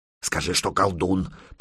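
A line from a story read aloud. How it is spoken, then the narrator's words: Hissed. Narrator (Russian): прошипел медвежья лапа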